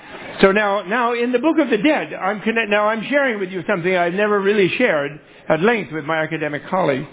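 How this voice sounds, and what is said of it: Fast New York accent. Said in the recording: “I'm talking like a New Yorker. Okay? Fast.”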